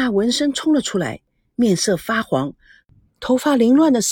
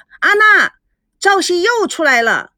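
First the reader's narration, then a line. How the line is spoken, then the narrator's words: Loud, choking shout. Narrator (Chinese): 吴梦玲差点被水呛住，大声的叫着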